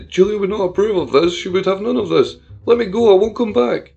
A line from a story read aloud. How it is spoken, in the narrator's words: Nathan pleaded